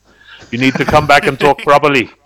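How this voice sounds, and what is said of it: Put-on Northern Irish accent. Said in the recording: “don't you be losing your Northern Irish accent ... I'll talk like this the whole time and it'll do your head in”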